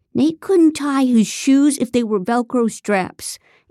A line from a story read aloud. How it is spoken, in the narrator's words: Ethan shouted